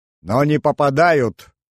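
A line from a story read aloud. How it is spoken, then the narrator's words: Laughing. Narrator (Russian): рассмеялся генерал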